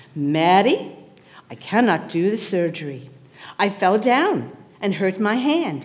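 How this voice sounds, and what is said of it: Imitated accent of a surgeon. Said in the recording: “I'm going to do a little accent here because he has an accent.”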